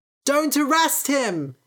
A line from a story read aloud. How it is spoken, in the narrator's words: shouted a boy